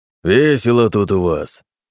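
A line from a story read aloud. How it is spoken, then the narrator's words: Growling big bear. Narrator (Russian): Прорычал крупный мишка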